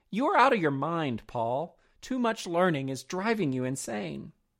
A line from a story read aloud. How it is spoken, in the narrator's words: Festus exclaimed